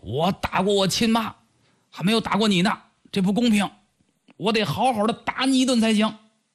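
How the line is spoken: Loud clamoring. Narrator (Chinese): 高阳大声嚷嚷说

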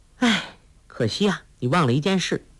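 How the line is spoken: Sighing. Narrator (Chinese): 黄蓉叹道

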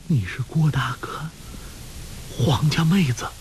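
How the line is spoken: Trembling, just waking. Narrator (Chinese): 穆念慈悠悠醒来，颤声道

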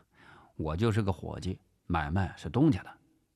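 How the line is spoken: Flat, indifferent. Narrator (Chinese): 陈发斌淡淡的回答

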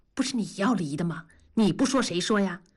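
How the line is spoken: Low, quarreling voice. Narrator (Chinese): 同志的声音更低，还吵还吵

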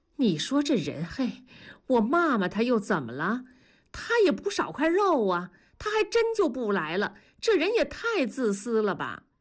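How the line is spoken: Muttering. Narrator (Chinese): 文丽…嘀咕着说

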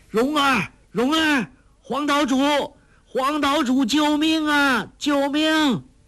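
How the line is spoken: Loud shouting. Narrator (Chinese): 郭靖喊得再响

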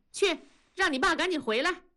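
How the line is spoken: Shouting. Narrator (Chinese): 文丽冲着大宝喊

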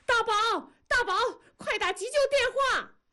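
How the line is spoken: Frantic screaming. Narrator (Chinese): 猛地醒悟过来，心脏有问题了，狂喊道

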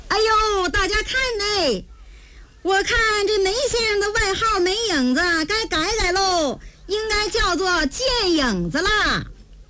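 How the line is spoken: Shrill gleeful shout. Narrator (Chinese): 温青高兴了，尖着嗓子喊

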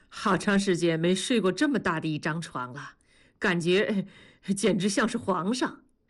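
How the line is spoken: Foolish giggling. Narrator (Chinese): 同志傻笑着说

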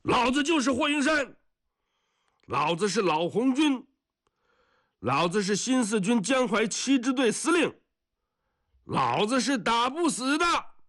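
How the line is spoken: Shout. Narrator (Chinese): 他 喊一声

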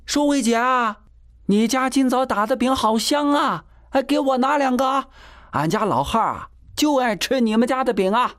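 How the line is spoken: Shouting. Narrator (Chinese): 旺夫嫂喊道

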